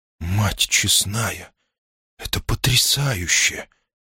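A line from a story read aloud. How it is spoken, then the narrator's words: Amazed mutter. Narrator (Russian): пробормотала она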